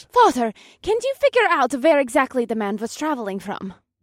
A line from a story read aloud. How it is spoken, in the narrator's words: Kaas asked, and her voice was high-pitched with an urgency that starkly contrasted Ramir's calm demeanor